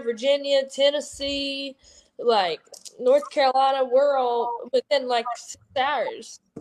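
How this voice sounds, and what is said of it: Noticeable regional American accent. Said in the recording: “Your accent is so cute. I love it. Like, it's perfect.”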